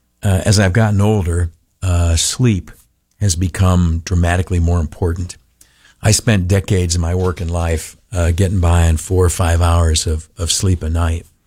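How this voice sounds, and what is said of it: Rough, worn-out voice. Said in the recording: “Forgive my voice. Sounds like crap. ... a little bit more tonight ... my voice is shot”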